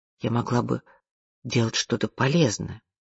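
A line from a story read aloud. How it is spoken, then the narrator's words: Quiet. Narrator (Russian): тихо произнесла она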